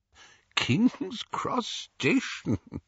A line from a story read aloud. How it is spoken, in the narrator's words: Dumbledore was chuckling immoderately